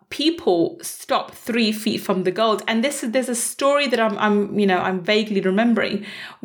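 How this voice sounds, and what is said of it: Unclear, strained voice from illness. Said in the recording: “my brain's a bit fried from being ill for the last week. I can barely talk at the moment. You probably can hear that because my voice isn't as clear as it is normally”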